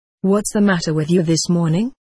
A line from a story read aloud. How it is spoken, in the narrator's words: asked the clerk